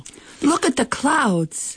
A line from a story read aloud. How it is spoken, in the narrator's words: shouts